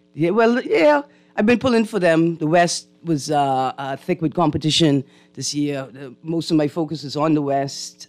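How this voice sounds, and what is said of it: Slightly hoarse, croaky voice. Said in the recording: “I have a little frog in my throat.”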